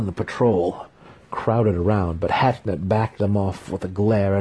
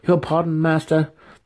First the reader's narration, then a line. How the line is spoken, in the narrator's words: the student pleaded